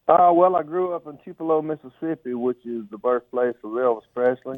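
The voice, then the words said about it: Southern American accent with twang. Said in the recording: “I can tell that you're a Southern guy, and I'm going to start talking with a twang in my voice”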